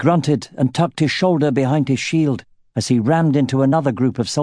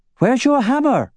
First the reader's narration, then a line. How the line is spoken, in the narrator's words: shouted Angela, as she spun her bladed staff, blocking and cutting at the same time